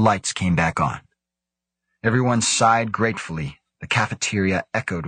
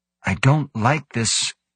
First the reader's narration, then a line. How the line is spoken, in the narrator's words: Hideshi admitted, her voice trembling